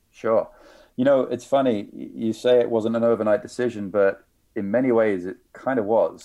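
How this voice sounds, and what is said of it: British accent. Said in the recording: “You clearly have a British accent.”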